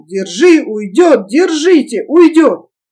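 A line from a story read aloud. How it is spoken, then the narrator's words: Hoarse shouting. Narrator (Russian): Усатый хрипло кричал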